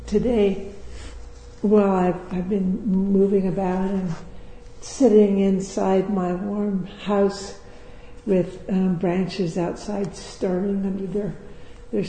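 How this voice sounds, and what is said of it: Weak voice, not sounding great. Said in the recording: “I'm pretty much out the other side of this cold. ... So I might not sound that great ... I don't know if my voice is that strong.”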